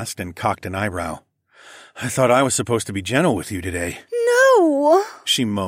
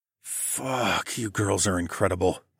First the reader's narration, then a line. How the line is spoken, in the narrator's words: I groaned